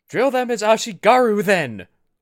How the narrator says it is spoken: Oshi shouted

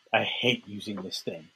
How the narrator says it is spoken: mutter

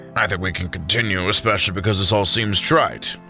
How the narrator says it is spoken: Samson snorted

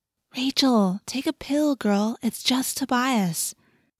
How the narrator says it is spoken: Cassie said soothingly

